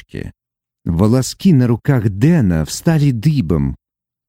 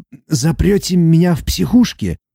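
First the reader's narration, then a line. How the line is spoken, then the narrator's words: Hoarse question. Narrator (Russian): хрипло уточнил он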